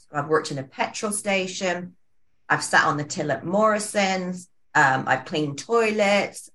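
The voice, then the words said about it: Speaks with an unusual accent. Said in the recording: “You can tell my funny accent.”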